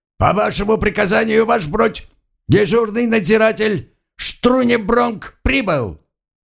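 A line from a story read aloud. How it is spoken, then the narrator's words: Sleepy barked report. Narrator (Russian): заспанный дежурный надзиратель рявкнул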